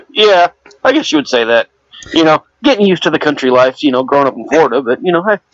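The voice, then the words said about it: Southern US accent. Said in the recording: “His his accent is from the South.”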